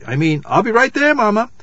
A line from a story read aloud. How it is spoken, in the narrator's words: cried, exasperated, and added quickly